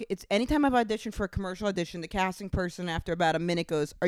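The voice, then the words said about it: Chicago-sounding American accent. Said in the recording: “You sound like, even what you just said, every time I audition, you sound like you're from Chicago.”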